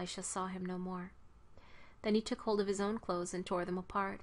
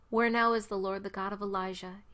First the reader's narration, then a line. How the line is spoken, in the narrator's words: he asked